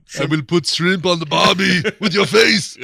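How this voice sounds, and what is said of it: Arnie impression doing Australian accent. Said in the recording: “Arnie would have been great to try and see him do any of these other voices ... This is my Australian accent.”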